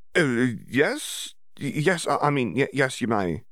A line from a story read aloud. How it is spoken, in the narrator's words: Hermione stammered